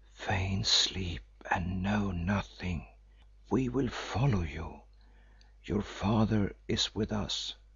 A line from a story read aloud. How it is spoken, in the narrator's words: whisper to her